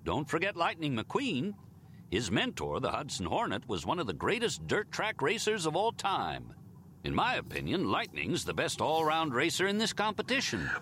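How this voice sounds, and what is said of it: Exaggerated Southern American accent. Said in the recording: “every American character have a super, Western, American, Southern accent?”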